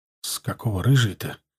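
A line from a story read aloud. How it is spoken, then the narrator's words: Quiet question. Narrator (Russian): тихо спросил я Игната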